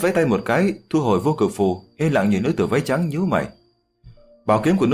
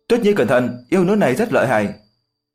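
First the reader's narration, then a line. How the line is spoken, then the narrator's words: Overjoyed, hurried cry. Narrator (Vietnamese): Diệp Chi Thu đại hỉ, vội vàng kêu lên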